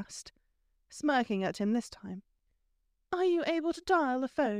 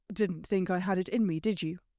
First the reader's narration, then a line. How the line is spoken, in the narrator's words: He said flatly, the question not actually rhetorical